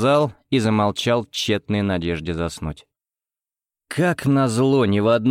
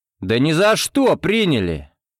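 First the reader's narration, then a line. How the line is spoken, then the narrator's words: Loud and clear. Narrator (Russian): громко и отчетливо сказал я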